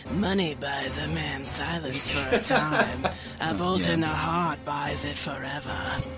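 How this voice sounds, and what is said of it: Creepy character voice. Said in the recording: “I'm going to do my best Micah impression ... I didn't do it quite as creepy ... my best Lord Baelish impression”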